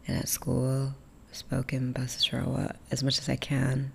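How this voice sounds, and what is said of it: Strong American accent. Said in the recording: “accent's pretty strong. My English accent, my American accent. ... No one in America believes I'm from anywhere else but America.”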